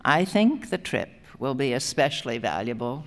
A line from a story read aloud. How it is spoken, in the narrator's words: she said